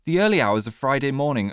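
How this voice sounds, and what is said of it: Put-on posh English accent. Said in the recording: “speaking so posh? My mum doesn't speak like that.”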